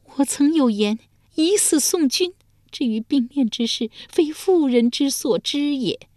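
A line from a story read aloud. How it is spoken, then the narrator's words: Sighing. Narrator (Chinese): 遂长叹一声说道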